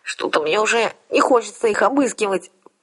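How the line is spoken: Nasal voice. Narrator (Russian): прогнусавила я

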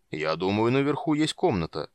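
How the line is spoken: Announcing. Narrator (Russian): объявил Слегард

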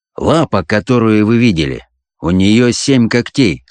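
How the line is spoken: Calm reply. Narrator (Russian): спокойно ответил

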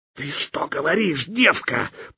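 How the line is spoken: Angry hiss. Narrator (Russian): прошипел он, сжимая кулаки

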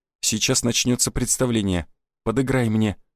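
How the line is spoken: Whisper. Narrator (Russian): шепнул я

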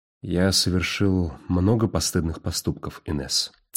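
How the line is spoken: Quiet. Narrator (Russian): тихо произнес он

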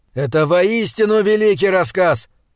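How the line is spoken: Shouting after. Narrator (Russian): прокричал Говард мне вслед

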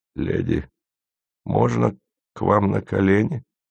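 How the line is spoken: Sudden weak question. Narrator (Russian): вдруг спросил Гарин слабым голосом

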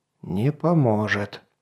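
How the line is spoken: Old man mumbling. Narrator (Russian): пробормотал старик

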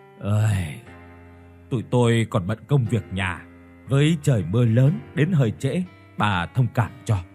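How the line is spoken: Sighing. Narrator (Vietnamese): thở dài một hơi rồi nói

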